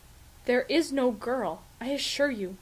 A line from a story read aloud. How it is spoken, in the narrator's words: Fraser says calmly